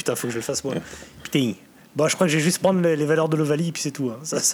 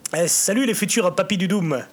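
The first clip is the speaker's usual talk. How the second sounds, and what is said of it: Put-on southwestern French accent. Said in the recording (French): “avec une voix mélangeant Alf, Eli Bop et Laurent Batless ... accent du Sud-Ouest. Accent un peu bordelais mélanger Alf”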